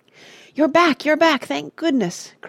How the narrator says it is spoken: cried H

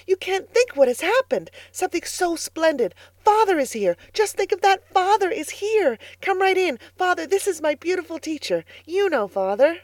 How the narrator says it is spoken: cried excitedly

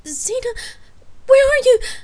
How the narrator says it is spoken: Gabrielle whimpered

